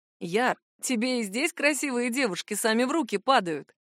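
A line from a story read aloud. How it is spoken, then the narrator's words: Laughing. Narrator (Russian): засмеялся один из друзей незнакомца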